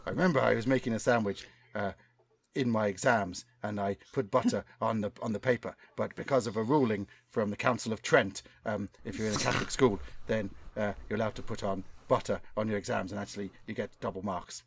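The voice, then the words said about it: Attempted Tipperary Irish accent. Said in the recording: “I can't do his accent though. It's not right, is it? ... It wasn't bad. ... It's not a Tip accent though, is it? It's something else. It sounds like Ardlo Hanlon.”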